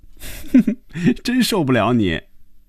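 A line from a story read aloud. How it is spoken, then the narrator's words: Laughing suddenly. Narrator (Chinese): 菲比一下子笑了起来，他说了一句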